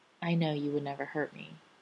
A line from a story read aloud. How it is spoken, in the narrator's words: say softly into the scant space between them